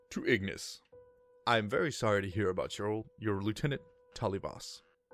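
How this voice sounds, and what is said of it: Performed character voice of a commander. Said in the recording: “let me see if I can do his voice”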